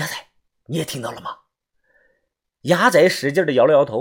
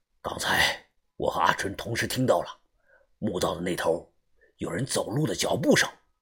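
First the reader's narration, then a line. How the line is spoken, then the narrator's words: Lowered voice. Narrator (Chinese): 于哥同样压低了声音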